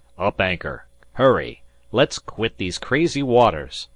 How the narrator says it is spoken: shouted Disko

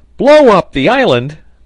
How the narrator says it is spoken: cried Pencroft

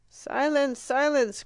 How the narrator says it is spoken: cried the audience, who were beginning to have enough

